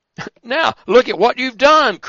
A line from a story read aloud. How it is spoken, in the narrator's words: cried the carpenter